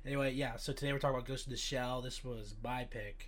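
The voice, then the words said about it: Sick-sounding voice. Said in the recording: “I'm a little sick right now, so my voice might sound a little weird”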